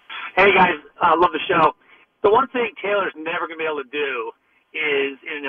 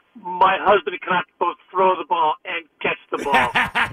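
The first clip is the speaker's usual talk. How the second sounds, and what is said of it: Put-on Brazilian accent. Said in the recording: “amazing supermodel Brazilian accent.”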